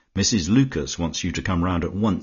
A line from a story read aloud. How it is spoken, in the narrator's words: she said